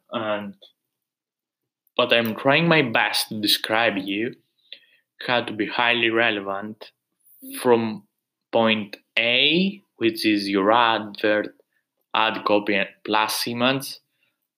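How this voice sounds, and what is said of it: Speaker's own unusual accent. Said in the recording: “My accent is weird”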